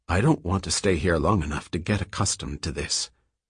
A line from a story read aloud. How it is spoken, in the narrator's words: In a still lower whisper, Selden said